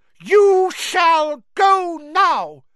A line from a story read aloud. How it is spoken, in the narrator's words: he said fiercely